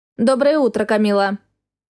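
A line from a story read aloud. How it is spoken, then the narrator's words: Flat toneless voice. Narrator (Russian): Сказала она безликим тоном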